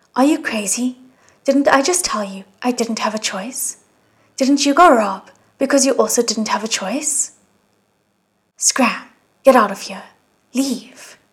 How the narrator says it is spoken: He cried furiously

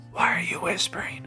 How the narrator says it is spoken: Michael whispered

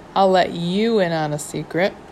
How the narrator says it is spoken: said, her voice fading

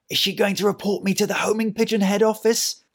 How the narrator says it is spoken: Harold said to himself in a panicked whisper

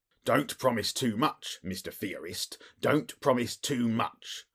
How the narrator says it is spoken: snapped the detective

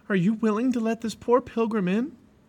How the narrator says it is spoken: He called out

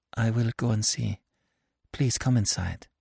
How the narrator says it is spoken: she mastered herself, and said in a low voice

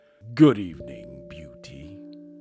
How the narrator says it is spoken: he only said gruffly

